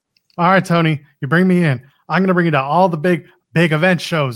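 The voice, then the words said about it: Terrible put-on Southern accent. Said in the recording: “I have a terrible Southern accent”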